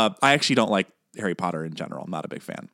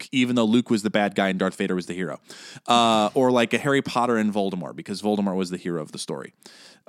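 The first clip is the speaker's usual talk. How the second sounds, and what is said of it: Sarcastic tone. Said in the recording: “I'm being sarcastic. I'm being sarcastic”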